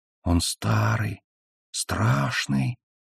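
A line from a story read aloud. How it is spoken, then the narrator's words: Small voice whispering. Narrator (Russian): прошептал маленький голос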